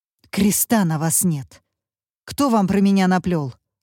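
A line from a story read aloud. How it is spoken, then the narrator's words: Angry hiss. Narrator (Russian): зло прошипела Алла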